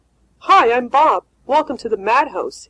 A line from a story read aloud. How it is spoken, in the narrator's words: he said cheerfully